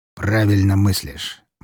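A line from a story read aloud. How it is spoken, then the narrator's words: Grim. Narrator (Russian): мрачно сказал князь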